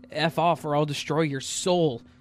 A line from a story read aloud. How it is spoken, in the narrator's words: I screamed in my mind